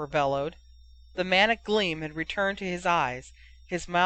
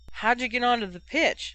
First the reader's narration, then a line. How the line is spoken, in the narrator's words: Medusa Francis asked, laughing